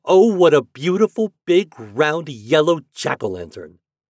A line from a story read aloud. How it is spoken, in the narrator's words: all the grandmothers and grandfathers and aunts and uncles cried